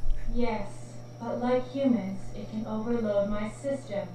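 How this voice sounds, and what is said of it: Sexy seductive character voice. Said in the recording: “keep doing that sexy voice”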